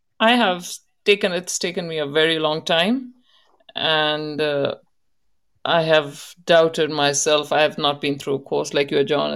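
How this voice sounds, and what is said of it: Indian English accent. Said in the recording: “If you speak really fast, your Indian accent comes through”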